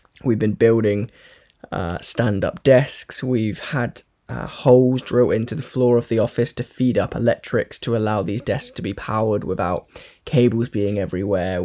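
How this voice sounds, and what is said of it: Tired, weary voice. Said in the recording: “if you can't tell from my voice, I will tell you, I am very fucking tired right now”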